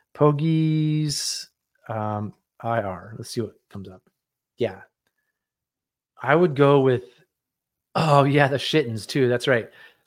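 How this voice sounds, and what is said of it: Slightly scratchy, tired voice. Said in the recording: “My voice is even a little scratchy just because I'm a little tired from kayaking.”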